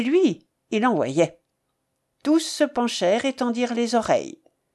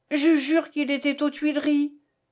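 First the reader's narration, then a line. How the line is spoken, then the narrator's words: Exclaiming. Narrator (French): s'écria Dussardier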